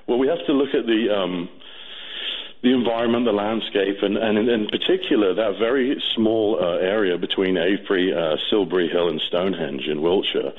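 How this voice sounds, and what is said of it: British accent. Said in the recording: “based on your accent, I have another question. Obviously, you'd be in a position to answer this. Why Great Britain?”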